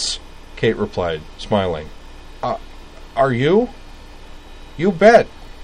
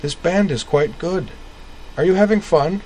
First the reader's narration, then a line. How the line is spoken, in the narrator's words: cried